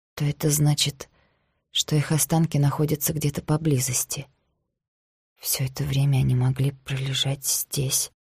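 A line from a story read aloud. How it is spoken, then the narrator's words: Quiet female voice. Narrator (Russian): тихо сказала она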